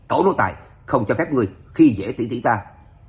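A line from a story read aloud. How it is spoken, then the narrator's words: Indignant brave shout. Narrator (Vietnamese): Lạc Văn Hải nhìn thấy tỷ tỷ chịu nhục, không biết lấy dũng khí từ đâu ra, hét lớn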